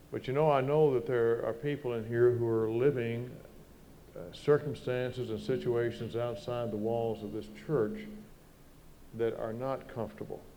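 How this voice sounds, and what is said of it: Southern American accent. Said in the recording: “this southern boy with his southern accent”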